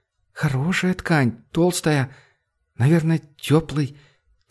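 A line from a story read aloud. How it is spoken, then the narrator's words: Quiet. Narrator (Russian): тихо произнесла она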